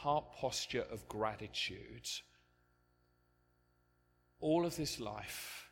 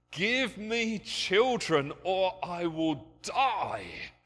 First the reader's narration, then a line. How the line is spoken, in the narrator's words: She pleaded with Jacob